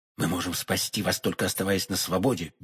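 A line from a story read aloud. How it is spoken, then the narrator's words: Quick whisper. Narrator (Russian): быстро шепнул ему Д'Артаньян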